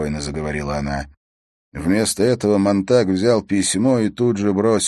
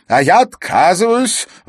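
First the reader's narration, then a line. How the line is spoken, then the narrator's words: Shout. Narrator (Russian): выкрикнул он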